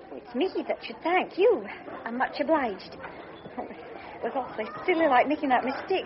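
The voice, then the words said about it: Scottish accent. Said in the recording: “the Scotch accent”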